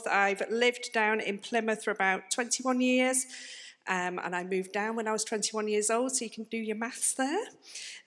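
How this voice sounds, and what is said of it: Northern English accent. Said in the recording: “as you may be able to tell from my accent, I'm not from round here. I'm actually from up north.”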